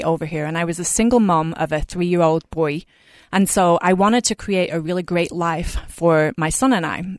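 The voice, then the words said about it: Lovely accent. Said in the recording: “you have a lovely accent”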